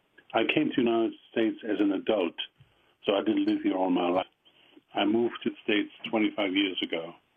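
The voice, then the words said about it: Strong German accent. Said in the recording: “with a strong German accent.”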